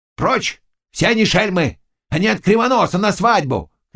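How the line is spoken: Shouting. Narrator (Russian): кричал Заглоба

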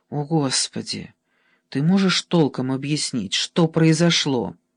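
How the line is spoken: Sighing. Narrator (Russian): Кульчицкий вздохнул

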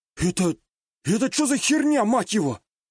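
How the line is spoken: Surprised exclamation. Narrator (Russian): Удивленно воскликнул снайпер

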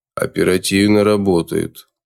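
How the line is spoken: Flat colorless tone. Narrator (Russian): бесцветным тоном произнес Кварц

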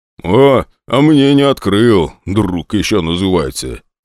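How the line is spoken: Grumbling. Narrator (Russian): проворчал Костя

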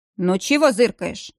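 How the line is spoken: Grumbling. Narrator (Russian): проворчал Верейский

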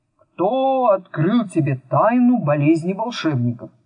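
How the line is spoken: Old man's muffled voice. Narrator (Russian): высокий, тощий старик безо всякого вступления глухо проговорил

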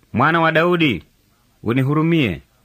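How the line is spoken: Shouting louder. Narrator (Swahili): akazidi kupaza sauti

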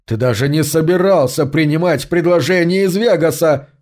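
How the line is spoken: Shouting. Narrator (Russian): кричал он

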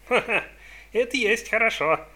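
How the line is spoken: Laughing. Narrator (Russian): рассмеялся Сонни Ли

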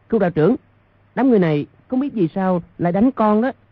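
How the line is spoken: Overjoyed cry. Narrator (Vietnamese): Trong lòng cả mừng, kêu lên

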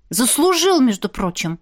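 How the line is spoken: Curt mutter. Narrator (Russian): буркнула я

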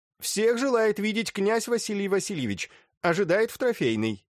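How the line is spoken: Loud announcement. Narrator (Russian): Митенька громко объявил

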